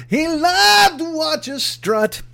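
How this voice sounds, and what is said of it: Poor sung imitation of another's voice. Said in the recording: “That's me doing a bad Bob Seeger.”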